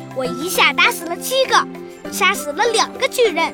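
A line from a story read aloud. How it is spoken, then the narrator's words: Sudden loud shout. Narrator (Chinese): 小裁缝突然大喊起来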